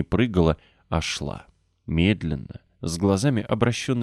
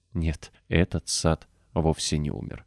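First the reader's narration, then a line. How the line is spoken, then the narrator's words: Quiet exclamation. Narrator (Russian): тихо воскликнула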